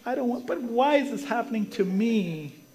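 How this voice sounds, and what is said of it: Whiny voice. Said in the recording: “He gets into his whiny voice. Ever have a whiny voice?”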